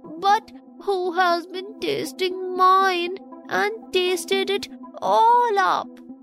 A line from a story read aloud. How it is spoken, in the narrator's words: cried the poor little teeny tiny bear in a teeny tiny voice, with the tears running down his teeny tiny face